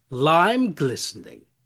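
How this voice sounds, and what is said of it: Impression of TV character Dr. Aphasia Crane. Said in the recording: “little like characters, like TV characters, but a spin on them... This is my impression of Dr. Aphasia Crane... Very good impressions.”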